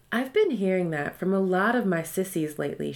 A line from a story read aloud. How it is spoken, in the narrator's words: she said